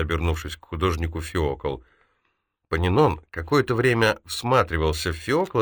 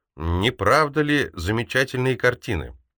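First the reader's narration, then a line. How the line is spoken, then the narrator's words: Loud. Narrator (Russian): Феокл громко произнес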